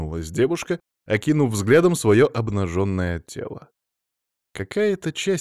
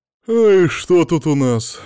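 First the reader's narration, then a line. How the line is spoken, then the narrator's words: Yawning question. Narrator (Russian): зевнув, поинтересовалась старший легист Лейси Глоу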